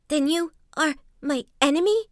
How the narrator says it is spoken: gasped the monkey brokenly

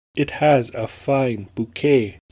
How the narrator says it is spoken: said

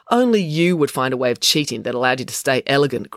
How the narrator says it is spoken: grumbled April

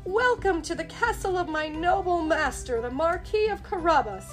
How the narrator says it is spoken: cried

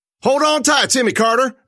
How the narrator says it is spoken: yelled

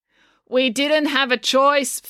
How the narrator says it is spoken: Finn said loudly

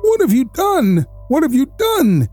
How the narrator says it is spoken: Vaco cried

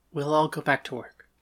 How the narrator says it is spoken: Hecuba said quietly

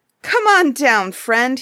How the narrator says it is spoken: he cried

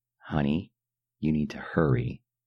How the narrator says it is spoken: Abigail said, her cheery disposition faltering, then failing

